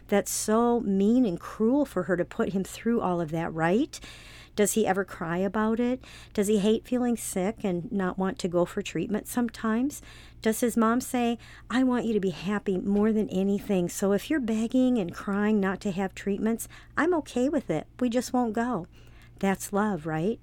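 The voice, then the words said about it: Sarcastic delivery. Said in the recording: “I was being sarcastic”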